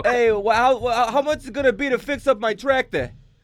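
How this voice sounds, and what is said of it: Put-on New York accent. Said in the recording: “we do great New York accents... You sound just like a... New York”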